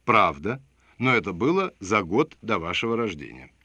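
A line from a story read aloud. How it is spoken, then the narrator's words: Soft reply. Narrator (Russian): Я мягко ответил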